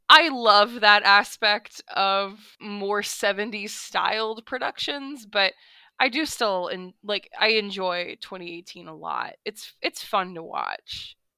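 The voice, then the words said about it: Congested, stuffy-nosed voice. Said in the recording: “I had a sinus infection last week... I don't normally sound like this.”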